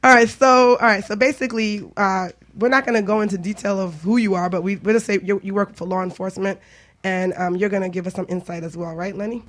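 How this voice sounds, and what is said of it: Raspy, hoarse voice. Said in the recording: “tell I sound a little raspy because I was at Jazz in the Garden, so I lost my voice.”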